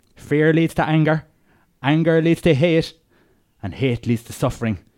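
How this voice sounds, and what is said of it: Dodgy Irish accent, Roy Keane impression. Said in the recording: “Pierce Brosnan wants his dodgy Irish accent.”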